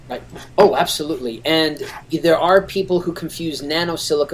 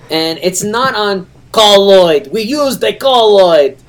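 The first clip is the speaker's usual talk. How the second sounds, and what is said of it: Put-on Russian accent. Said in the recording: “anytime I say the word on its own, I adopt this Russian accent ... I feel like my name is Dmitri and I'm a cosmonaut”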